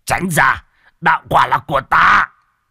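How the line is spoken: Old man's roar. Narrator (Vietnamese): Một lão đầu cũng gầm lên

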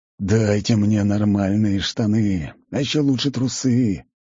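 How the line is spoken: Pleading. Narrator (Russian): взмолился я

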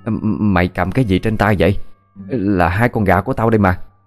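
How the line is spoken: Stammering question. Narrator (Vietnamese): Bà Hà lắp bắp hỏi

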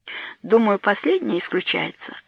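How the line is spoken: Calm reply. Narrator (Russian): ответила Анна спокойно

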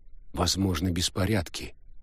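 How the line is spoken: Quiet. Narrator (Russian): негромко ответил Фауста

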